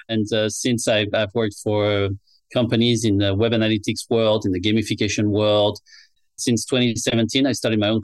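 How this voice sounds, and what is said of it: French accent. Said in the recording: “I'm originally from France, as you can tell from my accent ... it's lovely”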